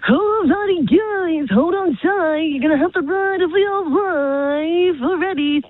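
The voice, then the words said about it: Carnival ride operator voice. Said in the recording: “my impersonation of a carny voice ... A carny, like a carnival person? ... like when you go on like the rides and stuff? ... they've got a bit of a unique voice.”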